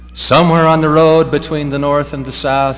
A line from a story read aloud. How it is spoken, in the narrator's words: he cried out, anticipating,